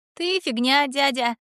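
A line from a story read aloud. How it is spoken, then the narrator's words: Laughing loudly. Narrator (Russian): расхохоталась Милана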